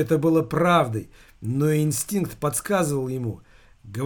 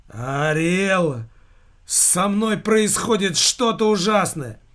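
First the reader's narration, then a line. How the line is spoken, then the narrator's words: Anguished outcry. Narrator (Russian): выкрикнул со страдальческой гримасой на лице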